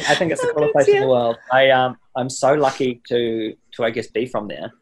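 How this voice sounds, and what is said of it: New Zealand accent. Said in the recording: “to be from New Zealand. Obviously, like an accent, it's a great conversation starter.”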